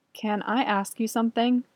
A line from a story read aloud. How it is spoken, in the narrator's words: Andrew says nervously